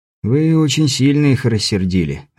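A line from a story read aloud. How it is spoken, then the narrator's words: Sighing. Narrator (Russian): вздохнув, сказал Беляев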